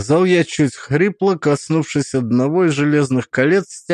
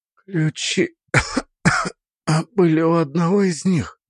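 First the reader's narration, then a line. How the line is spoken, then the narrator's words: Breathless, familiar tone returning. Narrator (Russian): выдохнула, в ее голосе уже прорезались знакомые нотки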